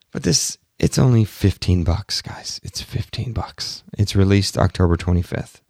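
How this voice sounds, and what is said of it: Strained, hoarse voice. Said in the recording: “my voice is completely getting wrecked talking to you today. I hope it doesn't sound too bad. ... before my voice gets even more completely wrecked”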